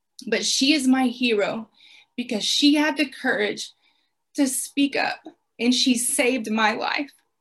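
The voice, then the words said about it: Choked up, emotional voice. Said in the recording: “I'm sorry. ... I always get choked up when I talk about her”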